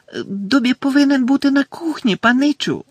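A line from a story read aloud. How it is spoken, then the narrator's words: Elf squeaking. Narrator (Ukrainian): запищав ельф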